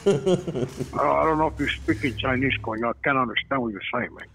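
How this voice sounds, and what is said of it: Put-on character voice. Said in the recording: “? ... you're fucking making that voice up. Is that really you”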